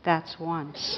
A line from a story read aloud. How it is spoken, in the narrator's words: quietly said